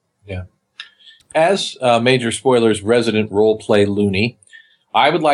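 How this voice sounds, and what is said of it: Usual voice. Nothing is said of it.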